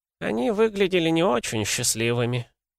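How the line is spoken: Sighing elderly woman. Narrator (Russian): вздохнула пожилая женщина

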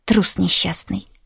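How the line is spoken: Grumbling. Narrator (Russian): буркнула Аленка

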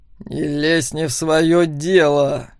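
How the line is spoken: Through gritted teeth. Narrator (Russian): вновь процедил сквозь зубы Макс

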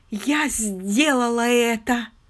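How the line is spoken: Tragic tone. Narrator (Russian): произнесла она трагическим тоном

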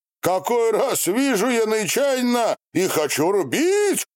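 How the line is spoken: Shouted. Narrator (Russian): прокричал он

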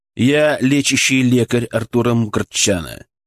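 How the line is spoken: Calm, authoritative. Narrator (Russian): сказал я спокойно и авторитетно

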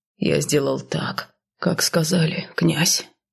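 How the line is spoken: Muttered, coachman. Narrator (Russian): пробормотал возница

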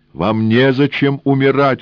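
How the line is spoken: Shouting. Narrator (Russian): крикнул он

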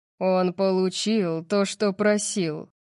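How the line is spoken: Growled. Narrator (Russian): прорычал Сет

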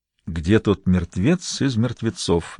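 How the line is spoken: Soundless whisper. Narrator (Russian): беззвучно прошептал Гамаш

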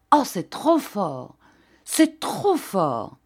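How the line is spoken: Outraged, trembling cry. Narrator (French): le baron s'écria, outré de surprise et frémissant

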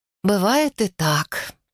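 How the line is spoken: Sigh. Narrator (Russian): вздохнула Геля

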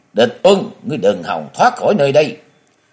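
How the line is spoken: Frenzied shout. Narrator (Vietnamese): Linh Hầu Dương Côn điên cuồng quát lớn

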